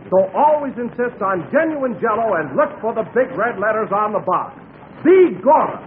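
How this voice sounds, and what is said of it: Put-on Irish brogue. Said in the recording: “where's the brogue? ... Well, you did that beautifully. Oh, that's a marvelous brogue.”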